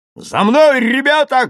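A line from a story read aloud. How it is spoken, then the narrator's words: Shouting. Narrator (Russian): крикнул Панов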